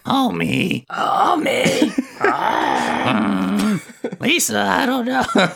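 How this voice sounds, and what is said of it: Raspy Marge Simpson cartoon voice. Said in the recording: “Marge Simpson impression ... We sound like cars trying to take off ... talk like Marge Simpson”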